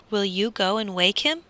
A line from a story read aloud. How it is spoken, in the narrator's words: asked the squire